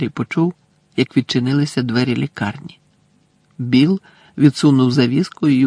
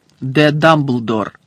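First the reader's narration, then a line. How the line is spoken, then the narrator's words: Stern. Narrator (Ukrainian): суворо звернувся Фадж до місіс Візлі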